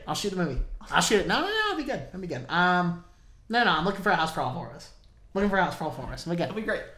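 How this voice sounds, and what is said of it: Imitates another person's voice. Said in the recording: “That's my impression of Jake Duggar.”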